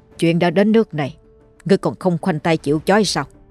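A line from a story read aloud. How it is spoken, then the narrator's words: Stern voice. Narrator (Vietnamese): Thầy Thiên nghiêm giọng mà nói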